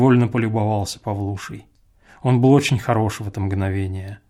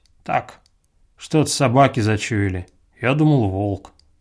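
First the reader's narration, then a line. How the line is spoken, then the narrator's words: Indifferent, quick breathing. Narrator (Russian): прибавил он равнодушным голосом, проворно дыша всей грудью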